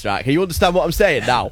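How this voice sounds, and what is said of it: Put-on Northern English accent. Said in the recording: “Give us the north of England accent ... in north, it sounded a bit like this”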